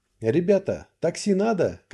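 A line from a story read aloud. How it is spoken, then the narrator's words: Shouted. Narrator (Russian): крикнул я им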